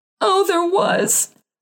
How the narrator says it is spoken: moaned his wife

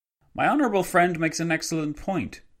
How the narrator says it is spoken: Antonio Mora, the Spanish Premier, exclaimed

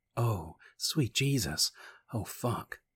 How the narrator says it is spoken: she gasped, the sensations growing in her and taking control of her actions

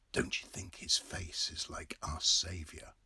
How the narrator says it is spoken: Red Murray whispered

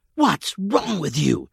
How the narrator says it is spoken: she hissed angrily

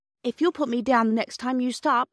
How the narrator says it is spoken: said Bobby firmly, though her heart beat fiercely

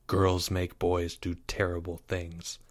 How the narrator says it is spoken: said Leo gravely

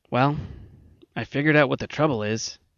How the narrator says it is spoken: McIntyre said gloomily with the air of a man who knows just how he blew up the earth after it was too late

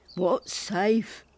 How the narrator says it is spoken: Will muttered

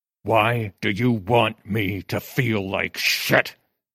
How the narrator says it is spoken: He said through clenched teeth

